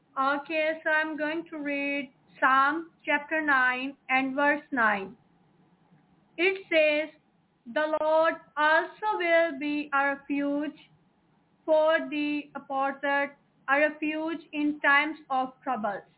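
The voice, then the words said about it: Accented English, reading aloud. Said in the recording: “our sister has a beautiful accent.”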